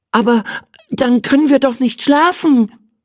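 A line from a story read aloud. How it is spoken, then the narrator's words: Excited shout. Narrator (German): rief aufgeregt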